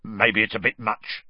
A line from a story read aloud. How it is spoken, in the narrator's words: said gruffly